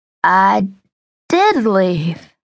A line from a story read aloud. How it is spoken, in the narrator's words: said in a slurred voice